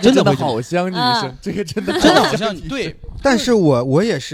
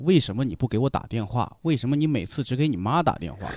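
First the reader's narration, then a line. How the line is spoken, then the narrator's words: Father muttering. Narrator (Chinese): 我爸会在旁边嘀咕说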